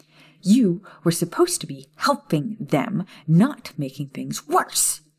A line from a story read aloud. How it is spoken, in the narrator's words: she snapped